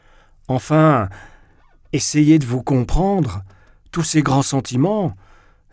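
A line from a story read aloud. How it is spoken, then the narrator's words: Sneering. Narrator (French): ricana Trudolyubov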